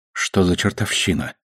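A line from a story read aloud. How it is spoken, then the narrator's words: Mutter. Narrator (Russian): пробормотала Наоми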